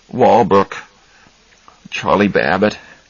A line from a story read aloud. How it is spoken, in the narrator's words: he muttered